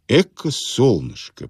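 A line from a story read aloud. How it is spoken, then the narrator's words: Said in an undertone. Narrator (Russian): промолвил вполголоса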